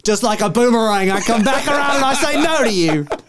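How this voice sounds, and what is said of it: Bad put-on Australian accent. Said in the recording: “terrible Heath Ledger impression. Terrible Australian accent.”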